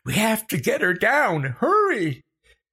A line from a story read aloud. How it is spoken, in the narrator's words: Becca shrieking